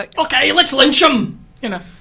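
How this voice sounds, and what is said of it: Wacky put-on accent. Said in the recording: “All hate crimes sound better with a wacky accent. ... That was a good accent.”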